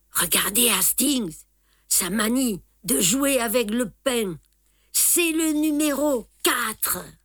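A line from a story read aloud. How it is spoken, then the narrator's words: Soft, emotional. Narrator (French): Poirot me disait doucement, mais non sans émotion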